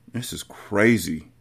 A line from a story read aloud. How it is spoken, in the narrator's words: Jaleel mumbled